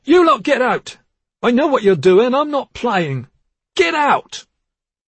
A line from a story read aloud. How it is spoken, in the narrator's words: But then he shouted